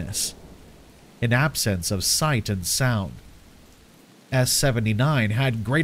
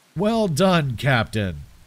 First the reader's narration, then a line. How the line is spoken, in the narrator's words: laughed